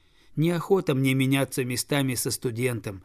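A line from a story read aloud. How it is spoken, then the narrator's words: Laughing. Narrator (Russian): засмеялся мальчик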